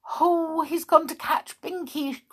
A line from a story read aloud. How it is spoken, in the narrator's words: cried Molly